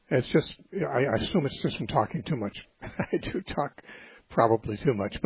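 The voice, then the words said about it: Hoarse voice. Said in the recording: “you can probably tell my voice isn't normal... when they hear hoarseness”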